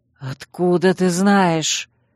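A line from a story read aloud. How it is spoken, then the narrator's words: Breathed out. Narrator (Russian): Выдохнул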